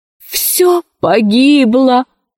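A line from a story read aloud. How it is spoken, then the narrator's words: Groaning. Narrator (Russian): застонал профессор Синг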